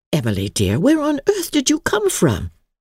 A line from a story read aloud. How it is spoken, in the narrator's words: she exclaimed